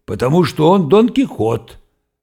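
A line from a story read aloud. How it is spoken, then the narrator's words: Barked. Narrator (Russian): рявкнул Вайнгартен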